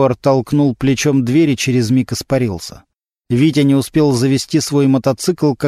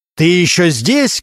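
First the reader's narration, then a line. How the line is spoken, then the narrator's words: Loud bark. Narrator (Russian): громко рявкнул Регинский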